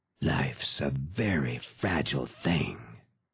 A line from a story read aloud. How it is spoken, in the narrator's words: man muttered